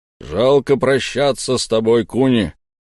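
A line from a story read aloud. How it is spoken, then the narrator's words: Loud deep bass. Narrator (Russian): громко пробасил Гром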